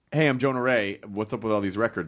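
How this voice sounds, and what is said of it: Jay Leno-style impression of Jonah Ray. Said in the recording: “you're Jay Leno doing Jonah Ray ... So Jay doing an impression, you would be like”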